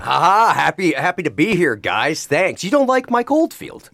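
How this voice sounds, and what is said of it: Smooth radio voice, no Black Country accent. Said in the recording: “how silky is that radio voice? ... he's probably the most least black country accent that we've ever had”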